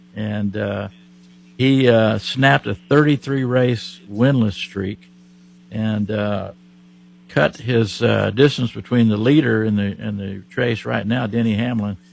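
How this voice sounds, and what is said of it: Oklahoma accent. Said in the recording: “from my accent, I'm from Oklahoma”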